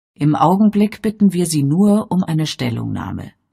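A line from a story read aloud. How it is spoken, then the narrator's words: Calm reply. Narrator (German): erwiderte Father ruhig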